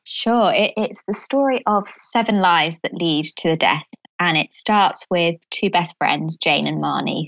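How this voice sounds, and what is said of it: British accent. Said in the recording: “I love your accent. I always love doing podcasts with these beautiful British accents. It sounds so official”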